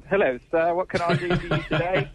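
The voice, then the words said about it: Put-on British accent. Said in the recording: “I'm expecting him to have a British accent.”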